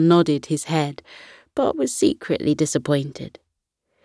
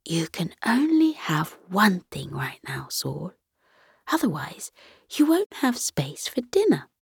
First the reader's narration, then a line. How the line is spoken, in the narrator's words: Saul's mother whispered